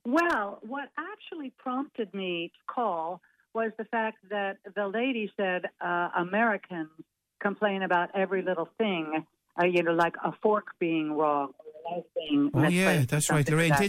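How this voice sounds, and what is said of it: American accent. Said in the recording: “So I can hear from your accent. You are from the States, I presume.”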